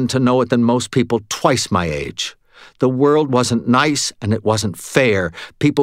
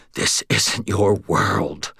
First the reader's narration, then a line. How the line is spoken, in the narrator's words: I whispered